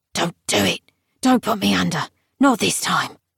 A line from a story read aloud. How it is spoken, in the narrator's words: Colm said gruffly